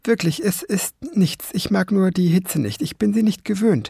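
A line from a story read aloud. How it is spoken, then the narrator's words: Stammering. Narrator (German): stammelte der Homunculus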